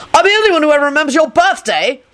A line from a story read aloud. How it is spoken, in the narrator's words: Lupin shouted wildly